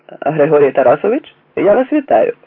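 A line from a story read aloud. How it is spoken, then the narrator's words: Cheerful call into phone. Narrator (Ukrainian): весело загукав у трубку капітан Попенко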